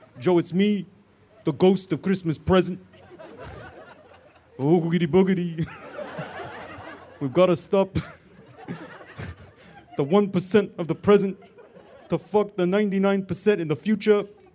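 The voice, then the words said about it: Rough Bernie Sanders impression. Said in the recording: “This sounds like, but not exactly like, your colleague Bernie Sanders... It's not close enough. At best, this is a bad impression of James Adomian doing a good impression of Bernie Sanders.”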